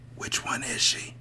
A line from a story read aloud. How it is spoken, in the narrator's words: whispered